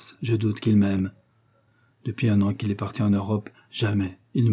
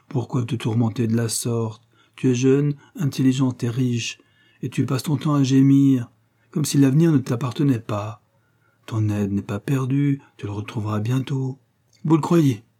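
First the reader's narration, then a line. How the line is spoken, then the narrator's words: Exclaimed. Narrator (French): s'écria Aurora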